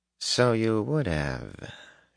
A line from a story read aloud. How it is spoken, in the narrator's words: murmured